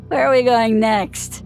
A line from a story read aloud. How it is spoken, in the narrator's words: He slurred